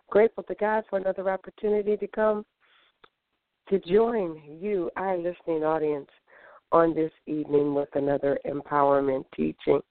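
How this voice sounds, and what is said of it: Excited, energetic voice. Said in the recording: “I'm excited. Can you tell? Can you hear it in my voice?”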